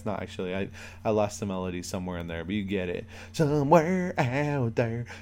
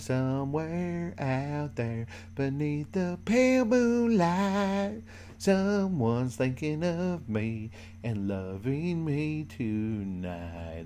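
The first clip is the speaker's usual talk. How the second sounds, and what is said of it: Sung in a put-on country accent. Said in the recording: “I don't know why I did this song in a country accent.”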